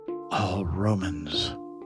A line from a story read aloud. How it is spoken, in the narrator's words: they whisper